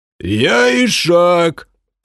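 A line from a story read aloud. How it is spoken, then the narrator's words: Shrill shout. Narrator (Russian): пронзительно выкрикнул один из игроков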